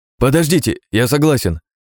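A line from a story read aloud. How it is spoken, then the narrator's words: Hesitant young man's reply. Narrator (Russian): после секунды раздумья ответил парень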